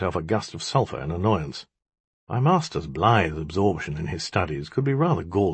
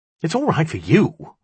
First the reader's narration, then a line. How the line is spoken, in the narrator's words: I cried